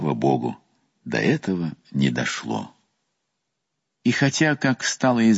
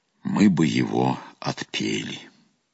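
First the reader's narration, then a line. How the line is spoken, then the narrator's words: Calm reply. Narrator (Russian): отец-наместник спокойно ответил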